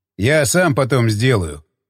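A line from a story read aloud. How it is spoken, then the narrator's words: Snorted. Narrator (Russian): хмыкнул он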